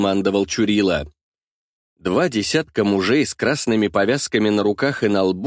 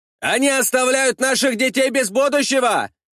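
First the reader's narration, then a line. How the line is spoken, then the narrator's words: Group shouting. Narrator (Russian): закричала часть бойцов десятника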